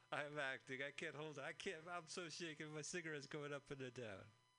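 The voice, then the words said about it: Put-on Italian gangster accent. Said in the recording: “That's my Italian accent ... My Italian gangster accent.”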